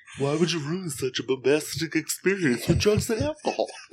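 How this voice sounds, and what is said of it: Imitates another person's voice. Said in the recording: “your Paul Stanley impression”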